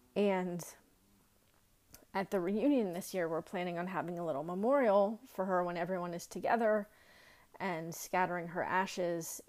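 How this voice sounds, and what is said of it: Choked up, breaking voice. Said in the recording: “I'm getting really choked up, so I'm sorry if my voice is breaking.”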